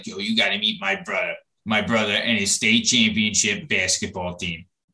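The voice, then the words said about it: Imitates another person's voice. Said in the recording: “A great Byrne impression. ... For those listening, that was me. It wasn't Byrne”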